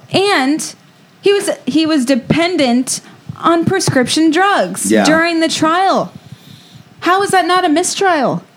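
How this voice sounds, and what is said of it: Shouting, loud passionate delivery. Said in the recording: “What are you yelling at me for? ... I'm shouting. I'm passionate.”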